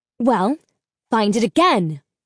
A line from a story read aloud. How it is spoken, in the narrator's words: Mal barked